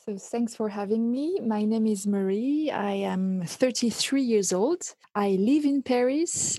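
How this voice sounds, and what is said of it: French accent in English. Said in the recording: “Her French accent is to die for.”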